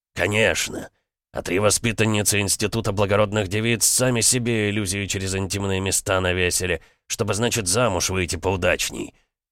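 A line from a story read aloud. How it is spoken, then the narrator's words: Snake-like hiss. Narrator (Russian): зашипел не хуже змеи Петр Алексеевич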